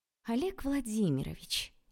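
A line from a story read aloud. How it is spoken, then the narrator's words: Sugary sweet voice. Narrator (Russian): елейным голоском сказала я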